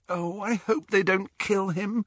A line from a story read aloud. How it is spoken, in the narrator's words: groaned